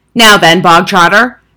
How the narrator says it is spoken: boomed

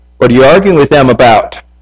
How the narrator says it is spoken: he asked

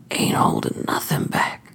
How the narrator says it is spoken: he whispered

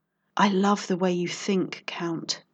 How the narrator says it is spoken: purred

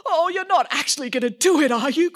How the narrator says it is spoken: cried the Earl

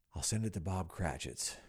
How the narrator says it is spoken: whispered Scrooge, splitting with a laugh

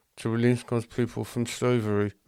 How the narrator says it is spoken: mumbled the Jews

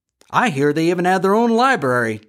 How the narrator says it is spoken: laughed Farley T

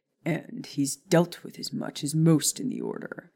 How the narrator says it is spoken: Sirius said with a growl

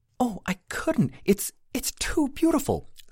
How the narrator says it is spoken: Sarah exclaimed

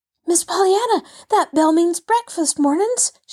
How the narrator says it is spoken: she panted

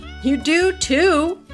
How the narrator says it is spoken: everyone else replied with a laugh

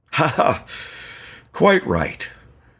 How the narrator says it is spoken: Lepton fake chuckled

